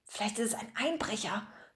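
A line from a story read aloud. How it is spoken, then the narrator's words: Excited whisper. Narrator (German): flüsterte Bertram aufgeregt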